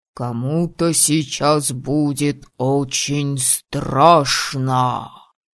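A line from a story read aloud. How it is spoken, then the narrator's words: Ominous whisper. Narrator (Russian): зловещим шепотом сообщил Виктор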